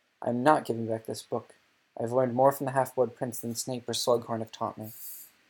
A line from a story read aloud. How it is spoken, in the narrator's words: Harry said, speaking in a slightly hoarse whisper after 3/4 of an hour of silence